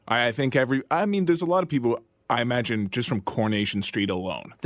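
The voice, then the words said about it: English accent. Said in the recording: “you grew up in England, as you can all hear from his accent.”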